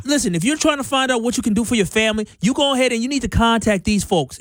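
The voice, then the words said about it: Put-on New York accent. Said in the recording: “I had a really good New York accent ... I had a whole New York accent that I did for the commercial.”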